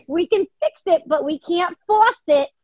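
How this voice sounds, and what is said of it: Put-on New York accent. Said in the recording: “We had to use my New York accent.”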